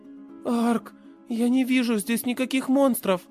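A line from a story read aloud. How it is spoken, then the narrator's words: Sleepy. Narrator (Russian): сонно произнесла Тия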